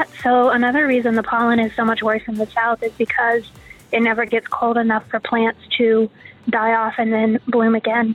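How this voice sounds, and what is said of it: Unwell, affected-sounding voice. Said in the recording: “Please excuse my voice. It's pollen related”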